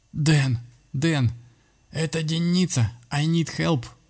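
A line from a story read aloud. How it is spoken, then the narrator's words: Wheezing, strained laugh. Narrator (Russian): прохрипел сатана, и надсадно рассмеялся собственной шутке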